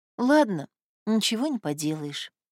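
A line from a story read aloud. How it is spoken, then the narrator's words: Sighing. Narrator (Russian): вздохнула Люда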